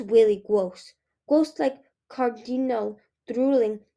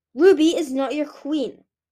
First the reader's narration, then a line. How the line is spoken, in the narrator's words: Scarlet snarled